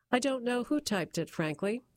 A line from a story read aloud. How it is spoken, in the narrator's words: he said